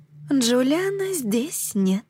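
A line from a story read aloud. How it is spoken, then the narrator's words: Insinuating, losing patience. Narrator (Russian): повторила Нимуэ вкрадчиво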